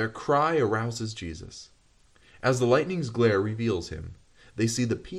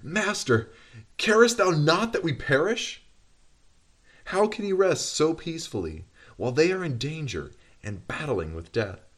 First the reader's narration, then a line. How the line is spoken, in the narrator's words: In amazement and despair they exclaim